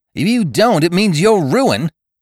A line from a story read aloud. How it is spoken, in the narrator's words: he said sharply